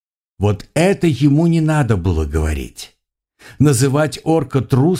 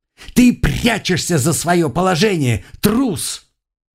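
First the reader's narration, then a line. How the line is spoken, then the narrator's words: Fearful tearful shout. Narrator (Russian): в страхе со слезами в голосе прокричал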